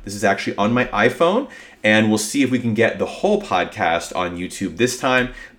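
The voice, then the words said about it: Sick, sniffly congested voice. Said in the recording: “I have been really, really sick this week... You can hear it in my voice... if I wind up coughing or sniffling... I apologize for the sound of my voice and if I get a little sniffly”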